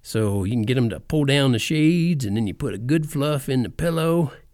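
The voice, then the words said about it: Cowboy impression voice. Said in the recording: “my cowboy impression”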